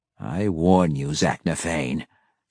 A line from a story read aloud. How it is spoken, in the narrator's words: growled in all her vile rage